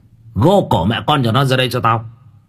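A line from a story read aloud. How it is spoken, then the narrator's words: Harsh shout. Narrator (Vietnamese): Lý Ngọc quát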